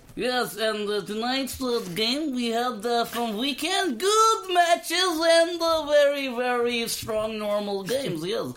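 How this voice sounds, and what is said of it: Bad put-on Russian accent. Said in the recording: “Live from Russia ... Just put an accent on and be slightly racist ... a really crap accent.”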